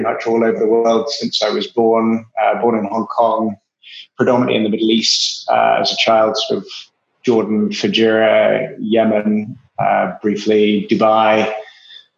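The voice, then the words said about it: Strong English accent. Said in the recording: “my atrociously strong English accent, I'm originally English”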